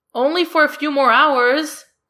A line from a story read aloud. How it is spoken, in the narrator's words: John Michael yells after them